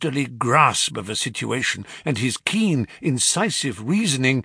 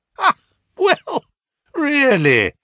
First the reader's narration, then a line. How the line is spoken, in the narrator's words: he cried